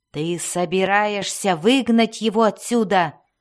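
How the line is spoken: Reproachful growl. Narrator (Russian): осуждающе прорычал Белвар

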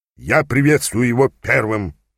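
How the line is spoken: Grumbled. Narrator (Russian): проворчал Плох-Секир

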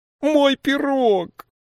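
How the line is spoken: Loud wailing cry. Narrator (Russian): завопила она и с громкими криками

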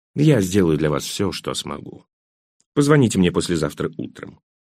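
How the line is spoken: Almost gentle. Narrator (Russian): Адвокат почти ласково сказал

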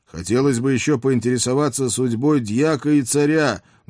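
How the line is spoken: Loud yelling. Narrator (Russian): громко проорал я в бант

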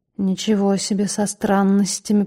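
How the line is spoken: Grumbling. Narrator (Russian): пробурчал Феликс Станиславович

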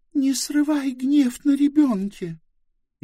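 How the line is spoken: Exhausted pleading voice. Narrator (Russian): Измученным голосом просила Близ

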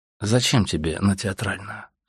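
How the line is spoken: Calm repeated question. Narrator (Russian): спросил он еще раз спокойно

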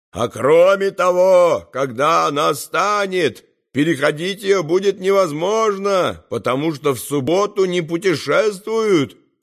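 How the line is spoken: Upset shouting back. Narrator (Russian): кричал он в ответ с огорчением

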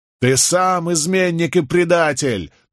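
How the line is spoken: Overlapping shouts from crowd. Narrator (Russian): наперебой кричали повстанцы

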